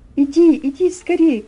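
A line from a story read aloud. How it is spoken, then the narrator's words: Shouting from the shore. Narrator (Russian): кричали мне с берега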